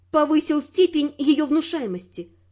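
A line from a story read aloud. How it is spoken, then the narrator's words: Plain. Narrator (Russian): ответила я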